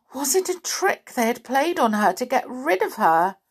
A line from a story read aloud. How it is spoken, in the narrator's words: Amelia Jane wailed aloud